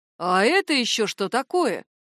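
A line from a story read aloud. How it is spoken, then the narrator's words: Exclaiming. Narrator (Russian): воскликнул Яр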